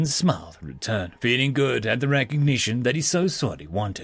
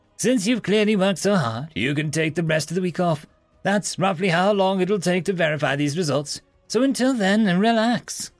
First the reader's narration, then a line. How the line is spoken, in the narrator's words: the professor, with the joy in his voice being almost infectious